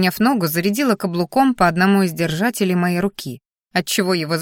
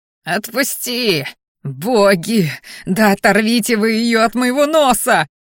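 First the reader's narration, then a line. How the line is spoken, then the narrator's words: Howling in pain. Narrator (Russian): Взвыл парень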